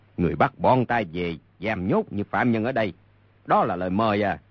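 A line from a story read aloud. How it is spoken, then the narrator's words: Angry. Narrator (Vietnamese): Mục Dịch tức giận nói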